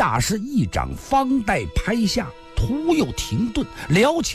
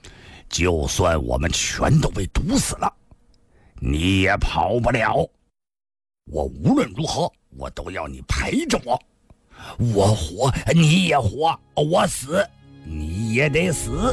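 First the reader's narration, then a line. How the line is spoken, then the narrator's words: Cold. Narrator (Chinese): 田七冷冷地说道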